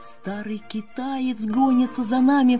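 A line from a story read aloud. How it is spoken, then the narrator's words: Little girl's frightened cry. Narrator (Russian): вскрикнула маленькая пастушка и так испугалась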